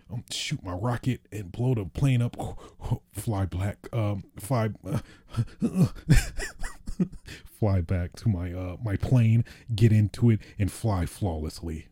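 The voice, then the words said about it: Imitates a typical gamer's voice. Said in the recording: “my impression of a Battlefield player. Battlefield / Call of Duty player.”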